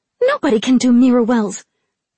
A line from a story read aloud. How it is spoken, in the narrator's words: Kara snapped